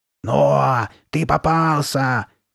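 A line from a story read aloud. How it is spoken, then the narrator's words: Angry bass shout. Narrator (Russian): крикнула Карли Бет злобным басом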